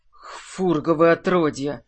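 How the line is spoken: Shocked exhale. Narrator (Russian): Выдохнул Минош потрясенно

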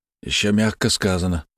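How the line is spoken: Sigh. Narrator (Russian): вздохнул Свечкин

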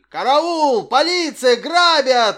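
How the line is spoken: Yelling. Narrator (Russian): вопил он

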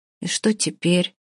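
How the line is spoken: Upset, forced out. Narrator (Russian): выдавила расстроенная Оля

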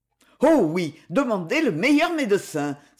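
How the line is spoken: Cried out. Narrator (French): s'écria Johnson

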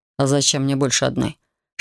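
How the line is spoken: Calm question, dragon. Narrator (Russian): спокойно поинтересовался дракон

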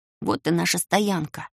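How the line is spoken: Quick whisper in ear. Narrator (Russian): быстро нагнувшись к моему уху, шепнул Талм

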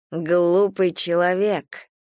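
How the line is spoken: Booming voice inside head. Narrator (Russian): прогремел прямо в голове голос

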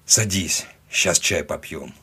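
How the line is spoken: Disbelieving grumble. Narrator (Russian): Пробурчал он, все еще до конца не веря

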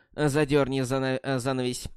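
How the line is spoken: Grunting. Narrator (Russian): хмыкнул капитан

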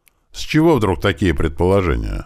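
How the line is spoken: Displeased question. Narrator (Russian): недовольным голосом поинтересовался герцог

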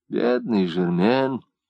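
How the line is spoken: Sighing. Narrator (Russian): вздохнула Марта

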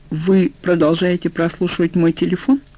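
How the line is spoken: Plain. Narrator (Russian): спросил я

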